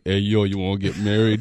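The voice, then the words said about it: Imitates Rocky's voice. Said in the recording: “got the first Rocky impersonation. ... that wasn't that good one.”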